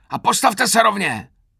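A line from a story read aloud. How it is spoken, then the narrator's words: Roaring, now milder. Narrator (Czech): zařval už mírněji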